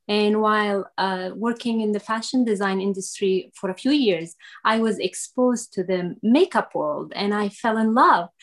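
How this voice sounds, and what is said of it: Foreign accent, not US-born. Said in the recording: “from my accent that I was not born in the United States. I am originally from Syria”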